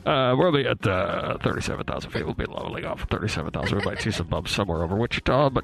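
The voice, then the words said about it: Airline pilot intercom announcement voice. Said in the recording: “in your pilot voice? ... You ever do the like go on the intercom thing?”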